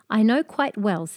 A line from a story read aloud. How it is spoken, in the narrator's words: said the mermaid